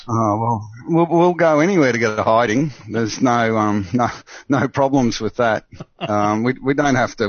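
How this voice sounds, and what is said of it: Australian accent, Queensland twang. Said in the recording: “that's not a South African accent that's been transplanted in Australia. You're a fair dinkum Aussie ... I can tell the Queensland twang”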